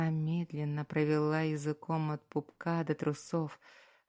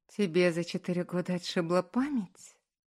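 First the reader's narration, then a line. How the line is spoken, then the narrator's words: Sly question. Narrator (Russian): лукаво спросила Аня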